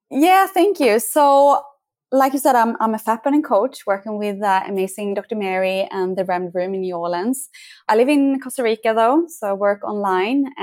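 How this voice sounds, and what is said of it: Soothing Swedish accent. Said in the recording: “I love your accent. ... It's very soothing. ... regarding my accent, I'm from Sweden”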